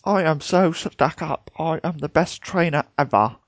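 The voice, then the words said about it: Stuck-up snobbish character voice. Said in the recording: “It's stuck up. That's all it is.”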